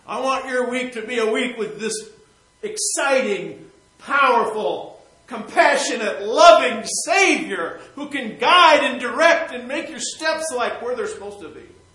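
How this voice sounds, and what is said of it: Shouting preacher. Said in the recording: “That's why I'm shouting ... That's why I'm shouting about it.”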